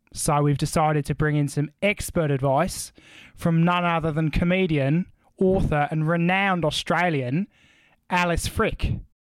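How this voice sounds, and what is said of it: Put-on Australian accent. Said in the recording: “you sounded really good ... that was your best accent you've ever done”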